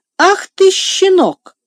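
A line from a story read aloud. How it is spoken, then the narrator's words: Exclaimed. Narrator (Russian): воскликнул Сен-Клер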